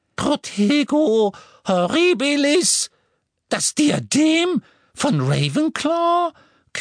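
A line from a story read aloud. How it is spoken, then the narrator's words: Squeaking. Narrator (German): quiekte Flitwick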